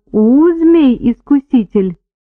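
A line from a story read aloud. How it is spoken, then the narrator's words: Deep-voiced cooing. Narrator (Russian): проворковала грудным голосом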